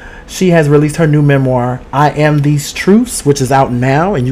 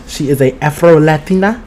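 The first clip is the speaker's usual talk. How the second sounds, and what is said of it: Put-on slight accent. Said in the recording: “you got to say it like that. You got to say it with a little accent.”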